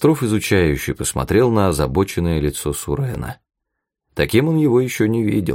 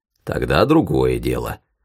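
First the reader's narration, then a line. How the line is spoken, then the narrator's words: Wry snort. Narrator (Russian): хмыкнул Рузаев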